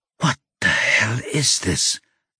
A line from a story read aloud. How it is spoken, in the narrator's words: Adam whispers